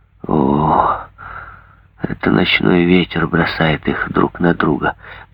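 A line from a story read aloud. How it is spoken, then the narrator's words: Muttering. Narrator (Russian): пробормотал он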